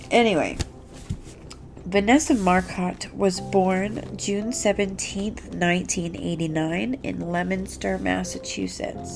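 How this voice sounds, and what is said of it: Stuffy, congested voice. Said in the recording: “if I sound stuffy, I am. I think I'm getting a little bit of a cold.”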